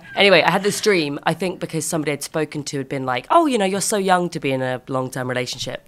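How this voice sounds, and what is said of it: Croaky voice. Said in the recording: “my voice sounds so croaky. I've had such a croaky voice for like the last 5 weeks. I got a virus or something”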